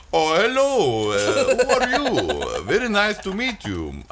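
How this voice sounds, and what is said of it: Weak put-on Indian accent. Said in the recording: “My Indian accent is off.”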